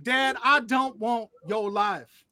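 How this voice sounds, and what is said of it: Put-on Southern accent. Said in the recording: “with a southern accent”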